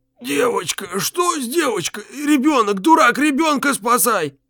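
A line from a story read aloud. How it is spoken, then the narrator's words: Gurgling, wheezing old man. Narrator (Russian): Голос деда клокотал и хрипел, как перегретый тракторный радиатор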